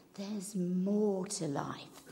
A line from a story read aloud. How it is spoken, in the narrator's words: an inner whisper becoming louder, saying